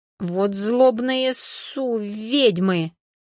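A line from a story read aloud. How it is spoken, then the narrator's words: Through gritted teeth. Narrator (Russian): Процедил сквозь зубы Константин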